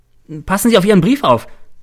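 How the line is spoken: Called out. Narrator (German): ruft mir Cäsar zu

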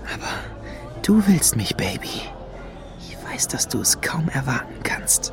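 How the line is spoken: Whispered. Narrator (German): flüsterte er Lady Luna zu

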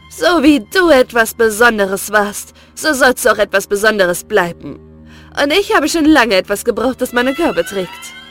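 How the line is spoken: Mocking. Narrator (German): hatte sie höhnisch zu ihm gesagt

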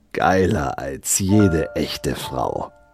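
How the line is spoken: Hissing. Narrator (German): zischte

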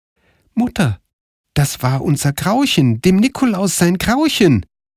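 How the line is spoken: Called out. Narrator (German): rief Karl

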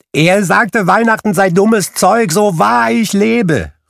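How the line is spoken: Calling out. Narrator (German): rief Scrooges Neffe

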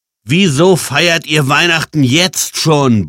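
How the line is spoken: Bellowing. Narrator (German): brüllte Jan

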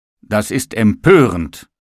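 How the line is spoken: Table calls out. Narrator (German): rief der Tisch

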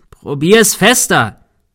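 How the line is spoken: Shouting. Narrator (German): schrie Thomas

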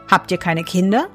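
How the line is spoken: Plain. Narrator (German): fragte der Fremde

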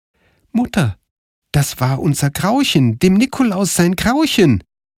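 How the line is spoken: Calling. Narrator (German): rief Karl

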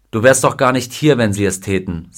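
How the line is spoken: Plain. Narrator (German): sagte sein Freund

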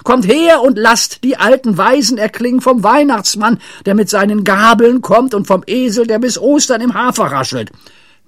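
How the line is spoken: Shout. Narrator (German): schrie Pippi

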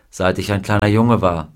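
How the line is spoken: Plain. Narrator (German): sagte er ihr

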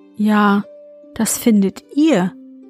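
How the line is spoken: Plain. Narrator (German): sagte sie

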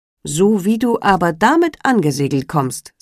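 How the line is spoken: Plain. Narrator (German): sagte er

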